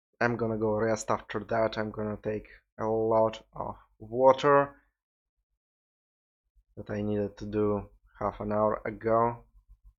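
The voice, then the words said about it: Russian accent, tired voice. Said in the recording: “my Russian accent that awoken probably a couple of 10 minutes ago when I stopped pronouncing everything correctly ... I am so fucking tired”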